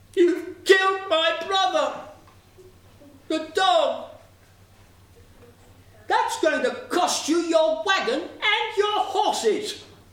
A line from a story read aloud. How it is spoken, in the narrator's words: Sparrow cried out